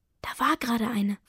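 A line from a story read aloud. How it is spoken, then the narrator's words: Whispering. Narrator (German): flüstert Lenker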